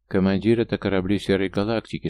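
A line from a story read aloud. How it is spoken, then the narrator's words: Calm. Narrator (Russian): спокойно проговорил Брон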